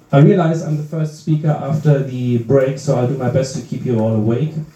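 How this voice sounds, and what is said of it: German accent. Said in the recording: “I am from Germany... I apologize for my accent”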